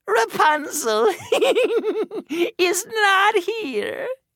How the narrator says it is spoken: laughed

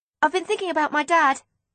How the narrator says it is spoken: I blurted out suddenly

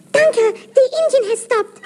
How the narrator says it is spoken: cried

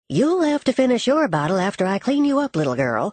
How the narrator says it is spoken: she said with a chuckle

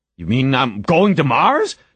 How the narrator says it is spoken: Jamie shouted into the phone

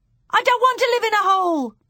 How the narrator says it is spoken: Bruno shouted

